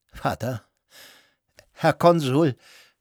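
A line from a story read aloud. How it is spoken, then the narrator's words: Shaky voice. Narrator (German): sagte er mit wankender Stimme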